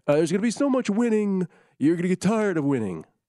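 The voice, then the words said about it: Imitates another person's voice, poorly. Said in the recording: “my horrible Trump imitation”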